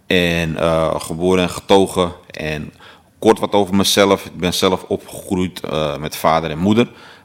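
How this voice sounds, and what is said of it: Amsterdam accent. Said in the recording (Dutch): “Zoals u dat misschien kan horen aan mijn accent, ik kom uit Amsterdam, Amsterdam-West.”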